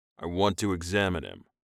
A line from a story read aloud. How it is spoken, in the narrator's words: Rojan stated firmly